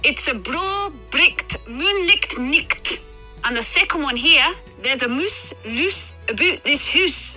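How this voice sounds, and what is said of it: Scottish accent. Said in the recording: “the Scottish accent, is the sexiest accent in the world ... that's not British. ... But that's Scottish.”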